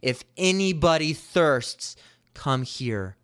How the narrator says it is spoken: a man in the middle cry out loudly

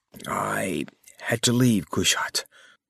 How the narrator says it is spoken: Kamar whispered

